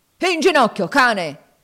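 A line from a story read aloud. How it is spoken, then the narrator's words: Yelling. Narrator (Italian): urlò Legree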